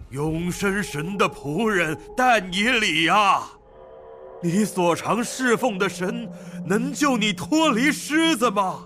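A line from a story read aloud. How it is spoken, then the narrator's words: Mournful calling. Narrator (Chinese): 哀声呼叫但以理，对但以理说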